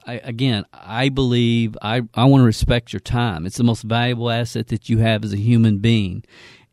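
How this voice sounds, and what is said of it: Southern accent. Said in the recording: “this southern accent”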